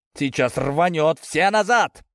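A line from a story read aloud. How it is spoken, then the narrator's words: Warning bark. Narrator (Russian): предупреждающе рявкнул Ковалев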